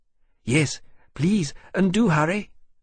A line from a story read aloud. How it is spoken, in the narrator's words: Temeraire said urgently